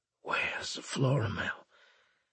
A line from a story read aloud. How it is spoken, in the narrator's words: Winslade chuckled